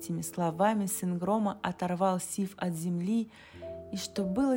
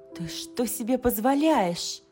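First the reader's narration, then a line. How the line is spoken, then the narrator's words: Indignant young woman's exclamation. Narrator (Russian): воскликнула девушка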